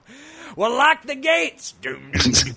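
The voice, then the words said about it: Poor imitation of another person's voice. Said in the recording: “a really poor Marc Maron show intro impersonation.”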